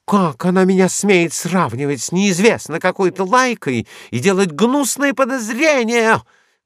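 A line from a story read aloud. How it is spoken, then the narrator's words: Shouting. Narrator (Russian): кричала Диана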